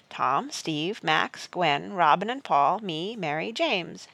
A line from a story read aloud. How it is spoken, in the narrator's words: she said